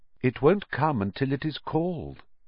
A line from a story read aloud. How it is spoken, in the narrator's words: said Riddle calmly